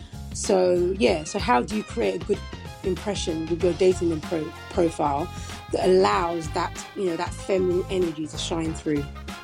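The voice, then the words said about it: British accent. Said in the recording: “your accent is just the best ... you just have the best voice ... I love British accents”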